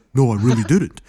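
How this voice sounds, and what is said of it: Imitates another person's voice. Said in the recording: “that's a really good impression, I know”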